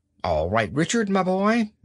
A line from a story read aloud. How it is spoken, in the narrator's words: said old Anthony cheerfully